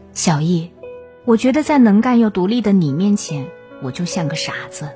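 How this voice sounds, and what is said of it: Quiet, weary voice. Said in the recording (Chinese): “声音越来越小，越来越疲惫 ... 小声的跟我说”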